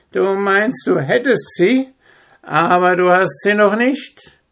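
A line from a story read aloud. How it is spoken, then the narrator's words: Old woman, venomous laugh. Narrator (German): die Alte lachte giftig und sprach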